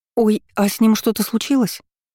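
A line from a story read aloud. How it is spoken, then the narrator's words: Frightened squeak. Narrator (Russian): испуганно пискнула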